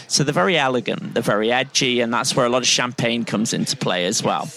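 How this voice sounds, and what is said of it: Northern English accent. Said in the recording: “the best bit of Britain, the Pennines, the backbone of Britain, as my accent gives away ... from the north”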